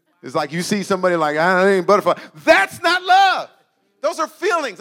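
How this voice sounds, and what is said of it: Yelling, loud passionate delivery. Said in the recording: “sorry for yelling,”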